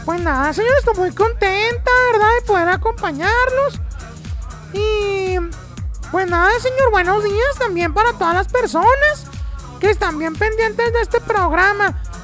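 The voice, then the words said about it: High-pitched shrill voice. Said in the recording (Spanish): “Tienes voz de pito tú... Tienes voz como de pito, así como muy chillona”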